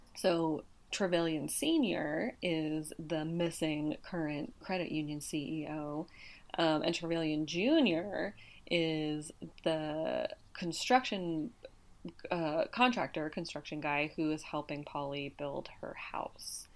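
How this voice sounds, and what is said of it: Hoarse, fading voice. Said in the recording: “I don't know why I'm like losing my voice all of a sudden.”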